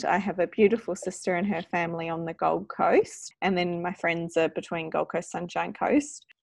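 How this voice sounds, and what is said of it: New Zealand accent. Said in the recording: “as you can hear in my voice, I'm from New Zealand originally.”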